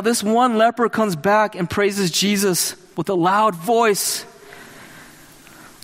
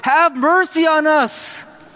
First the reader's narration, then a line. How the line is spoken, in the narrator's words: They cried out with a loud voice